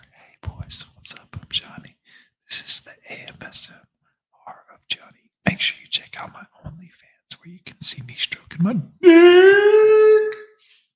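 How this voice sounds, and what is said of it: Whispering. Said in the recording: “Yeah, I'll whisper for you ... I'm whisper,”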